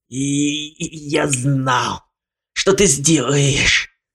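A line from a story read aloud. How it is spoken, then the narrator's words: Hoarse croak. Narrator (Russian): Прохрипел Ламон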